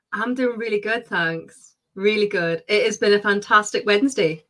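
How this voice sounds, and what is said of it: Distinct British accent. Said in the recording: “she's got a very distinct accent ... if you're out of the UK”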